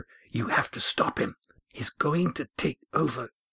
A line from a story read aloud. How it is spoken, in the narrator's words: an urgent voice whisper